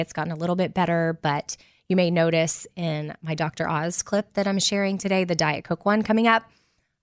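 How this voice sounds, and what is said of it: Weak, strained voice. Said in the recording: “my voice is awful... not really having one... was on vocal rest yesterday... I probably sound a little bit different”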